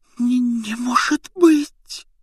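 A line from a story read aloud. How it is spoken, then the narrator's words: Almost silent breath. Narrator (Russian): почти беззвучно выдохнула она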